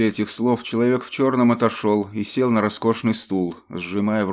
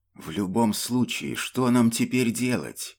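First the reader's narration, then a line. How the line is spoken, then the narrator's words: Muffled whisper. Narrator (Russian): шепот, словно поглощенный толстым роскошным ковром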